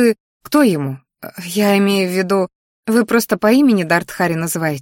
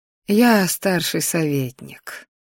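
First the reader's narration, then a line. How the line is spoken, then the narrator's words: Sigh. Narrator (Russian): вздохнула она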